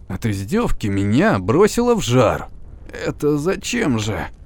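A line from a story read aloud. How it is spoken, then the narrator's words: Creaky voice. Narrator (Russian): проскрипел я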